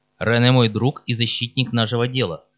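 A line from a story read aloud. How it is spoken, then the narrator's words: Sharp, curt. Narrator (Russian): резко бросил Ромеро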